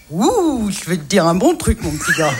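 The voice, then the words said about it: Imitates another person's voice. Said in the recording (French): “Remarquable imitation.”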